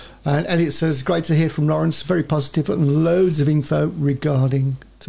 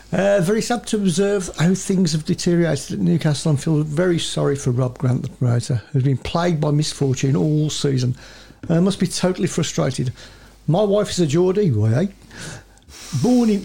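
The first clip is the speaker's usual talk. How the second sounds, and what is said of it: Put-on regional British accent. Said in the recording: “your Welsh accent... Said it was the Geordie accent.”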